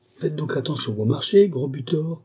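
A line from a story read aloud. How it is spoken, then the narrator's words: Young girl exclaiming angrily. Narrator (French): s'écria une jeune fille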